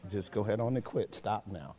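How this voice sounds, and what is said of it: Lowered, quieter voice. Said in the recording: “I've learned I got to lower my voice.”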